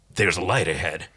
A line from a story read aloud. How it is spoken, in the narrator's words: Dargo uttering quietly